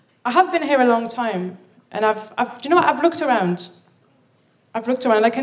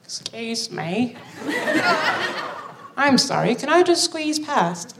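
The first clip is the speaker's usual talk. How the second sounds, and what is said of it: Impression of a British person. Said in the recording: “I can do a very good impression of a British person”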